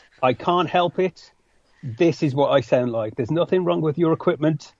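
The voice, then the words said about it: West Midlands English accent. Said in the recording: “apologize up front for my accent. I'm from the West Midlands in England.”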